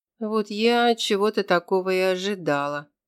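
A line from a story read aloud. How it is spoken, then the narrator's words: Gloomy remark. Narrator (Russian): мрачно прокомментировала Вика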